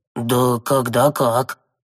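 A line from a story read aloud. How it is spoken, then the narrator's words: Wry snort. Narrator (Russian): хмыкнул Коин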